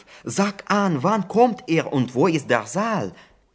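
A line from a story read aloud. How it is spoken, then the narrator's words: Caliph calling out. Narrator (German): rief der Kalif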